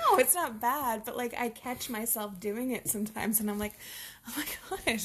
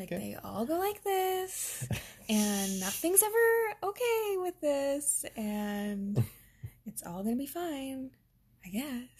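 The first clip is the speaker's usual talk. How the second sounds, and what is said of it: Imitated missionary sing-song accent. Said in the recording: “the same like rhythm ... It's like the missionary accent.”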